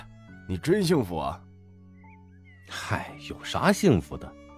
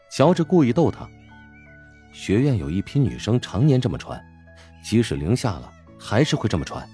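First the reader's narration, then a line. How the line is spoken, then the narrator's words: Admiring. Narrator (Chinese): 钟石啧啧赞叹道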